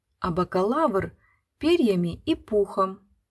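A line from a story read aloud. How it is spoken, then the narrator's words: Timid. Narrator (Russian): Лелька робко сказал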